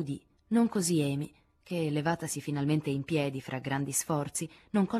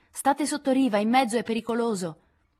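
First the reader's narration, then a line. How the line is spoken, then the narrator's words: Shouted backward. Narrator (Italian): Lori gridò alle sue spalle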